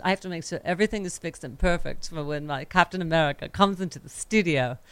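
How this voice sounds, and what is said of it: Weird put-on accent. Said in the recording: “Why am I talking in this weird accent?”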